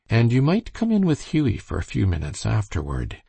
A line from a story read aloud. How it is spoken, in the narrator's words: she continued kindly